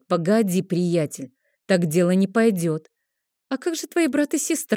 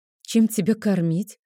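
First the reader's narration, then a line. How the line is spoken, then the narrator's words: Sigh. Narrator (Russian): вздохнула я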